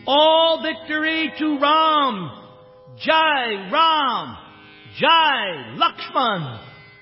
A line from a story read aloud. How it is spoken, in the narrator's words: the monkeys danced with joy, shouting